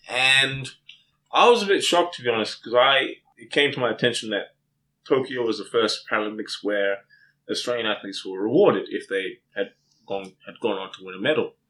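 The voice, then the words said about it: Australian accent. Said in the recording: “as you may have detected from my accent, I'm not from around here. I'm from Australia, born and raised.”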